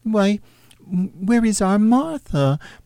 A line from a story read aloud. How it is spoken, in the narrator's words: cried Bob Cratchit